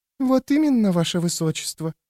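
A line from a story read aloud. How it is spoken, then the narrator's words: Cooing into ear. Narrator (Russian): проворковала ему на ухо вторая шлюха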